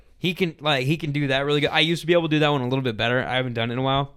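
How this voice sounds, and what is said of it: Worn-out, strained voice. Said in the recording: “My voice is so shot ... my voice is, like, on death row right now”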